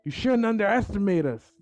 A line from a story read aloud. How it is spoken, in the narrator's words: I yelled